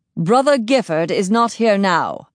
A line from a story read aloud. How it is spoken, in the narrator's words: thundered Tolik in a voice I'd never heard from him